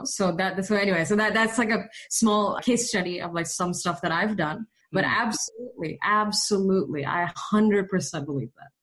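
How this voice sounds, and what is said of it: American accent. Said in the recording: “I have worked a little bit on building an American accent ... now, like, I sound completely American, which is on purpose”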